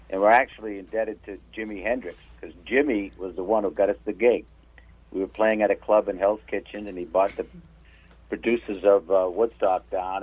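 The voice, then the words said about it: New England accent. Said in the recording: “Are you from Massachusetts or Rhode Island? ... Doug picking up on the accent.”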